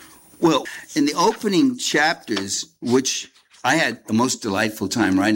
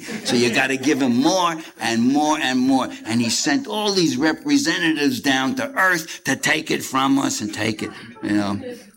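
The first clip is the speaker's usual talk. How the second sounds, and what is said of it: Imitates another person's voice. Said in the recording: “my George Carlin imitation”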